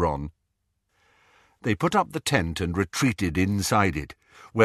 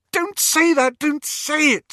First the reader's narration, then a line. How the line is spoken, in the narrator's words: squealed Hermione